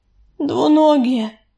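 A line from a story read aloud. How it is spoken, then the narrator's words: Strained, forced out. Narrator (Russian): выдавила из себя Яролика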